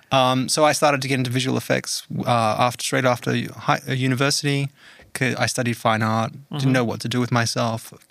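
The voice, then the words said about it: Australian accent. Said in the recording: “I can tell by the accent. ... got the Aussie accent.”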